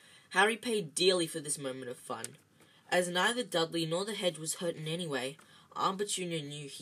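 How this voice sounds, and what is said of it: Usual voice. Nothing is said of it.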